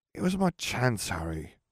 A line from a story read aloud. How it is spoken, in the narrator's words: Ron sighed